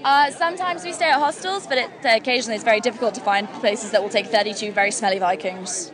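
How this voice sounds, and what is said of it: English accent. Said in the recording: “I can't place your accent. ... England.”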